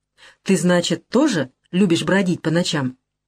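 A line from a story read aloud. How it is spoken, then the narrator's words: Forced calm. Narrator (Russian): Она старается говорить спокойно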